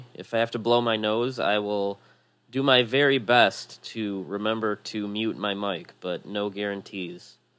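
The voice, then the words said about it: Slightly nasal, congested voice. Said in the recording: “I'm fending off a slight cold, so if I sound a little nasally”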